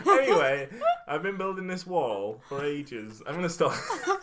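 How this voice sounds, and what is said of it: Put-on accent drifting between regions. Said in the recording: “my accent's going all over the show now... Caribbean... Sounds like you've been Gavin and Stacey.”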